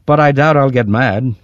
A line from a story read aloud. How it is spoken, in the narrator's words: he added cheerfully